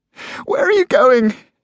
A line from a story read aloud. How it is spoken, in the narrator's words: cried, tears running down her face